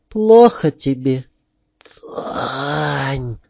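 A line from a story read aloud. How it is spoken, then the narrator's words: Anguished groan. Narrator (Russian): застонал я, внутренне содрогаясь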